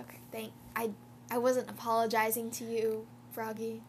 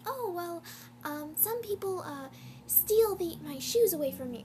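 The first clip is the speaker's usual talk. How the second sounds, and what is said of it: Bad Luna Lovegood impression. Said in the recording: “a really bad Luna impression”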